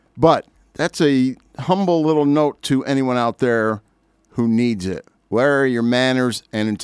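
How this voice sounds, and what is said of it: Usual voice. Nothing is said of it.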